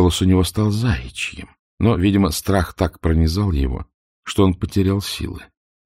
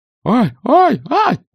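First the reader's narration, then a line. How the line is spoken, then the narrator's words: Squealing. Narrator (Russian): продолжал визжать Ригельд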